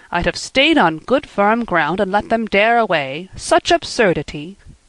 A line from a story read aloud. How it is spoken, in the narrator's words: said Marilla